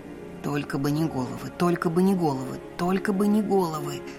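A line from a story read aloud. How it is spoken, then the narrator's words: Quiet mumble to herself. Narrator (Russian): Тихо пробубнила я себе под нос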